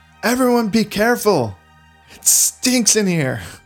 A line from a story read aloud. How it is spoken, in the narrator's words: And he screams out, he says